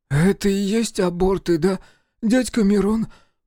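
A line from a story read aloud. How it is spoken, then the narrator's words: Hoarse, horrified. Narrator (Russian): прохрипел он, в ужасе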